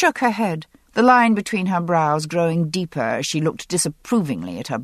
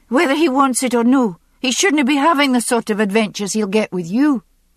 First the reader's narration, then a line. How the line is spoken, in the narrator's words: Jenny interrupted sharply